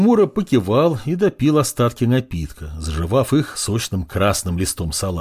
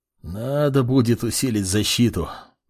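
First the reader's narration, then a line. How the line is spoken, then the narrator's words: Muttered. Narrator (Russian): пробормотал Артурс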